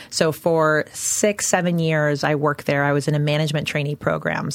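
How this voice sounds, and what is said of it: Canadian English accent. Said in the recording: “originally from Canada. So you'll hear it in my accent.”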